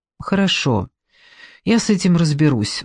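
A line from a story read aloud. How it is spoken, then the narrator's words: Sighing. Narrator (Russian): вздохнула Люба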